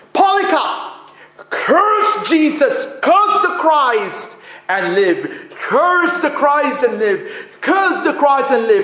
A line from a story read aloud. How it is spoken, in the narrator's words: he was shouting at this bishop